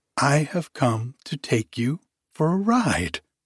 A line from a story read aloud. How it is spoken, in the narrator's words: cried Kitty